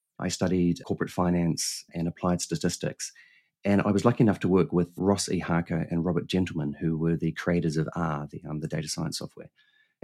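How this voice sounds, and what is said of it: Slight New Zealand accent. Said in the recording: “I have a funny accent ... I was born in New Zealand, hence the slightly funny accent.”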